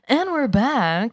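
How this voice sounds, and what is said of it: Announcer-style radio voice. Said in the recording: “I've been trying out some variations on a radio voice.”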